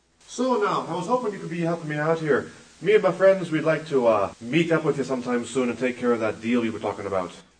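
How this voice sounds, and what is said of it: Irish accent with odd vowels. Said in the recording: “he had an Irish accent... something wrong. Something about the way the vowels were formed. There was a sucking sound behind.”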